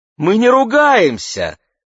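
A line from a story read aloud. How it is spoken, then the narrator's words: Exclamation. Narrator (Russian): воскликнула Мэгги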